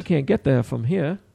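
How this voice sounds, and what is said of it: Put-on Maine accent. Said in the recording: “That's my Maine approach. That's my Maine attempt. ... That's a Maine accent? ... that's Maine for sure. That's my Maine impression.”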